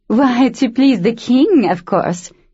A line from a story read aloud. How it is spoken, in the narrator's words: one woman chuckled